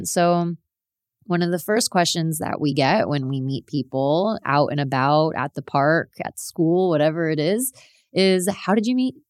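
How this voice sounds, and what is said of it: American South Florida accent. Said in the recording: “for those of you who can tell by my accent listening, I am American. I am from South Florida, born and raised.”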